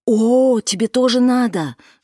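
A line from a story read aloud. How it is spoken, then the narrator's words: Ardent female exclamation. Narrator (Russian): жаром воскликнула Кики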